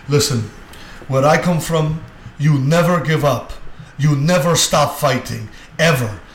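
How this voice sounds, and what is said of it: Imitates another person's accent, poorly. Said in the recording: “I'm going to try and do his accent. It's not good.”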